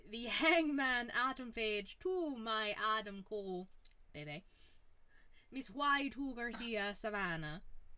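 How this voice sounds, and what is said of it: Poor put-on Irish-Scottish accent. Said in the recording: “hell of an accent you got there ... What is that broke-ass Irish accent? ... A mix of, like, Irish, Scottish, and everything like that, and it's not good”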